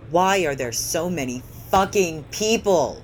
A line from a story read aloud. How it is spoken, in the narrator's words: Hoshiyumi shouts, seemingly to everyone in the immediate vicinity